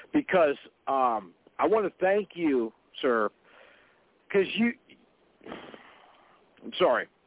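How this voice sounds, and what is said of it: Emotional, choked-up voice. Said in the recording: “I'm going to get emotional now here ... I'm getting emotional.”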